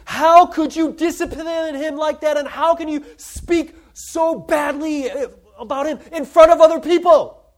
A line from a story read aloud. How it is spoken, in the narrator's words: she yells at me in front of everybody, saying